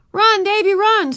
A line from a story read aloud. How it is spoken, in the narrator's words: screamed the rest of the class, jumping up and down